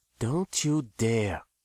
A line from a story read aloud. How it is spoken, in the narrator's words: Gonda warned her boyfriend quietly